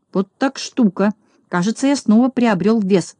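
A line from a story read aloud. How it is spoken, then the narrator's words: Mutter. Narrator (Russian): пробормотал Знайка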